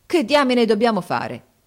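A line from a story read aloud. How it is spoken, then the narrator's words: Exclamation. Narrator (Italian): esclamò Harris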